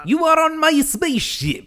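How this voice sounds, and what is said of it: Stereotyped Russian accent. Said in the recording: “that whole accent, which is not great ... the stereotyped Russian cosmonaut”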